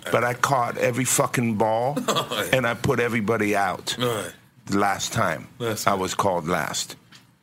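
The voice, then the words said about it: Speaks with a noticeable foreign accent. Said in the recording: “you know how funny my accent is ... my funny accent”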